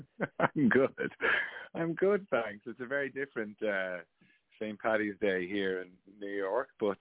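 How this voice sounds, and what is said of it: Speaker with a noticeable accent. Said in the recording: “do I hear an accent? ... You do hear an accent”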